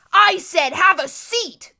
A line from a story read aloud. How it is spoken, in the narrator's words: the hook-handed man snarled